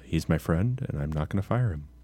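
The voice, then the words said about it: Quiet impression of a football coach. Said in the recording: “my Lincoln Riley impression is really good ... He's not that quiet, I don't think ... He kind of is ... He's not bombastic ... He doesn't have a deep bass, you know, basso profundo”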